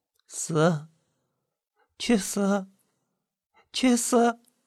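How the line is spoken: Mother mumbling in sleep. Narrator (Chinese): 母亲在睡梦里紧紧的皱着眉头，喃喃的梦遗着

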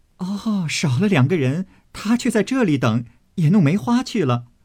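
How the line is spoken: Group laughing. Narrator (Chinese): 众人都笑道

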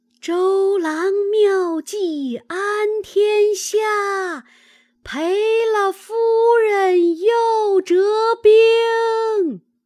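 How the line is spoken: Soldiers shouting in unison. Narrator (Chinese): 岸上军士齐声大叫曰

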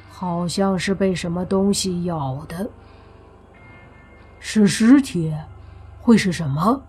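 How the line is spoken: Plain. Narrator (Chinese): 泥巴问

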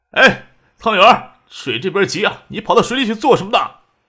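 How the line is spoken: Loud shouting. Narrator (Chinese): 邢爱国大声嚷嚷

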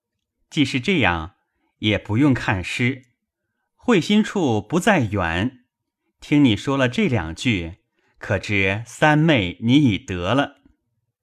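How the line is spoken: Laughing. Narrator (Chinese): 宝玉笑道

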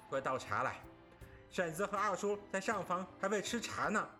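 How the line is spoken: Calling out. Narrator (Chinese): 贾蓉叫

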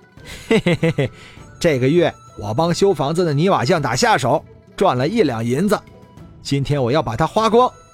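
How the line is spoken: Smug chuckle. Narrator (Chinese): 华章得意的笑了笑，说道

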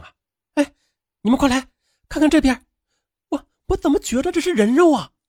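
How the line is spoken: Stunned girl shouting. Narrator (Chinese): 呆住的女孩高喊

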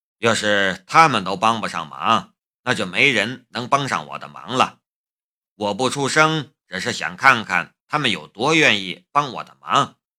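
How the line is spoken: Quiet, amused. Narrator (Chinese): 夏雷的嘴角浮出了一丝笑意，也小声的对他说道

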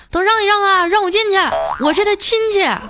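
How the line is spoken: Loud shout. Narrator (Chinese): 大喊一声

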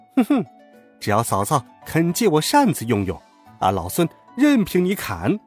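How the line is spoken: Laughing. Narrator (Chinese): 孙悟空笑道

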